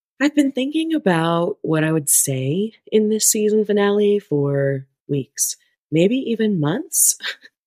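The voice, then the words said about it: Voice a bit off, sounds sick. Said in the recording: “my voice is a bit off. I am battling a bout of the ick”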